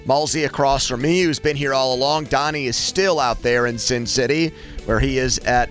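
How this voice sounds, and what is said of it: Slightly hoarse voice. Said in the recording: “My voice might be a little hoarse”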